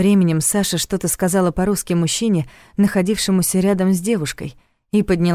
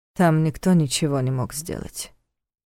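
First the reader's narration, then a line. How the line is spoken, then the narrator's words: Soft, gentle reply. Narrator (Russian): мягко ответил Войтых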